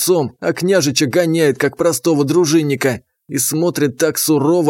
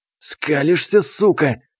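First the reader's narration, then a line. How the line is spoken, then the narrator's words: Hissed. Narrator (Russian): прошипел он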